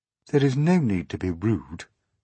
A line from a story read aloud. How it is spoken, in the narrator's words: she said coldly